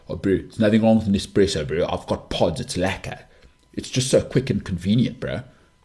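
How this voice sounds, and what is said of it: Put-on South African accent. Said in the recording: “South African accent”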